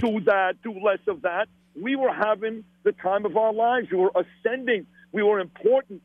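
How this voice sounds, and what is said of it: Brooklyn accent. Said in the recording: “That Brooklyn accent ... They loved my Brooklyn accent.”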